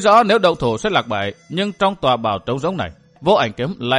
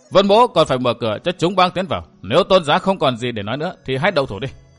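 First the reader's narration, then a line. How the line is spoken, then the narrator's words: Cold sneering voice. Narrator (Vietnamese): mặt của chàng bỗng sắt lại, chàng cười nhạt nói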